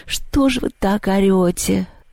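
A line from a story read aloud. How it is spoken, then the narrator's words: Sleepy question. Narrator (Russian): сонно спросила Люба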